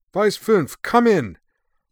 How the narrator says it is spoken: Von Hammer cried

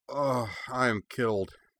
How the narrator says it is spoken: Cora declared weakly

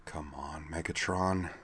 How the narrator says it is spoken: she muttered

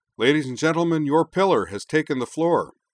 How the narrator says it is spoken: Wakaba bellowed

